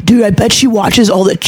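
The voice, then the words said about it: Put-on deep voice. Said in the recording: “I'm giving my classmates a fucking deep voice.”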